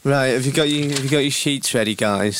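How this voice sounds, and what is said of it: Impression of a colleague's voice. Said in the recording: “Do you want me to do an impression of producer Ben? ... he speaks a bit like this”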